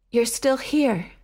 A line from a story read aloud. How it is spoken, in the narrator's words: he panted